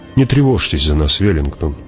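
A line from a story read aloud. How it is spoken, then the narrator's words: Soft. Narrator (Russian): мягко сказала Джессика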